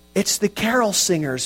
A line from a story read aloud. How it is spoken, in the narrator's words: Matthew shouted excitedly